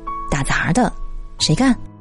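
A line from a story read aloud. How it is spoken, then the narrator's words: Muttering. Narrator (Chinese): 有人嘀咕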